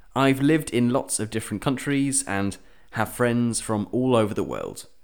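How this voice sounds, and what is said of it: British English accent. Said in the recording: “you can't tell from my accent, I'm British.”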